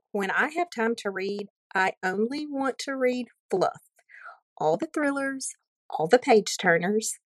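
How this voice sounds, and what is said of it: Southern American accent. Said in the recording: “Southern accents are different depending on your state, but your beautiful voice reminded me so much of going to college in Alabama”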